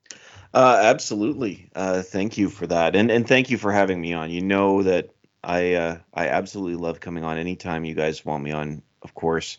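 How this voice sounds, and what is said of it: Canadian English accent. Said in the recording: “my Canadian accent ... how could we not love your Canadian accent”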